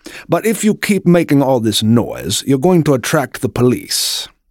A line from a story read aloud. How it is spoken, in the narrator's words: said Joseph in a genteel accent